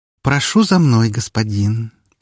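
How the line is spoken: Cooing, tender voice. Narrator (Russian): проворковала она нежным голосом

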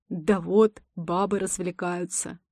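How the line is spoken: Smirking grunt. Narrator (Russian): Хмыкнул кто-то из толпы

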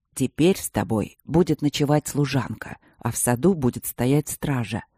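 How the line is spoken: Very calm, rumbling voice. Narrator (Russian): сказал он очень спокойно своим ракочущим голосом

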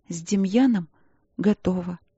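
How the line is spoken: Embarrassed mumble, young woman. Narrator (Russian): смущенно пробормотала четвертая принцесса

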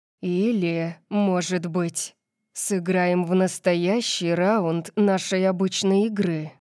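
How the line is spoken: Growled. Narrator (Russian): Прорычал

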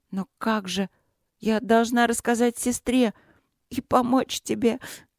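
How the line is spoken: Sobbing. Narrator (Russian): всхлипнула принцесса

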